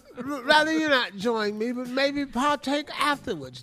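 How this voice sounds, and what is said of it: Put-on British accent. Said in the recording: “say it in a British accent.”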